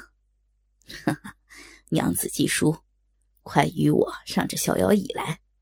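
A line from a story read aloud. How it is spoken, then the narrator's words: Hearty laughter. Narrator (Chinese): 高衙内 不由哈哈一笑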